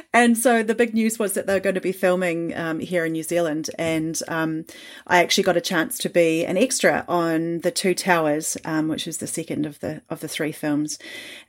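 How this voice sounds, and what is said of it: New Zealand accent. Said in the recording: “I'm a New Zealander from my Kiwi accent.”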